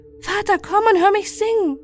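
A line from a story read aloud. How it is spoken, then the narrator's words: Calling out to father. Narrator (German): Es rief seinem Vater zu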